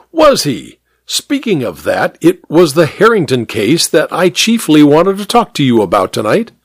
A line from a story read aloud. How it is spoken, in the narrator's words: exclaimed